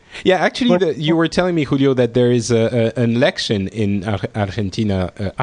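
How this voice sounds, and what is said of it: Spanish accent on a word. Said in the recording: “I take the Spanish accent when I say it. I try to sound more authentic.”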